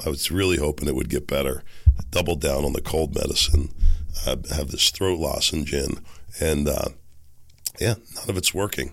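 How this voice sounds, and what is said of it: Raspy, hoarse voice. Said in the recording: “my raspy voice and all ... I'm just on a path to completely losing my voice”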